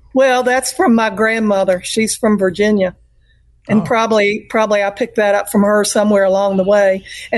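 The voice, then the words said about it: Southern US accent, antebellum touch. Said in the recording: “You got one heck of a good Southern accent. ... It's got a little touch of antebellum”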